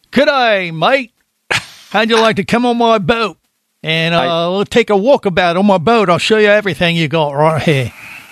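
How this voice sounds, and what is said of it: Put-on Australian accent. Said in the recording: “I just wanted to show off my Australian accent.”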